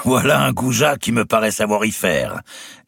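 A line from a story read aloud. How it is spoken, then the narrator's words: Laughing. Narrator (French): dit Robert d'Artois en riant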